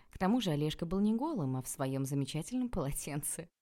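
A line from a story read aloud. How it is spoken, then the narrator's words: Giggling. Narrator (Russian): хихикнула я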